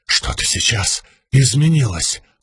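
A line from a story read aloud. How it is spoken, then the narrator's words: Whisper. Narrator (Russian): прошептал Моаш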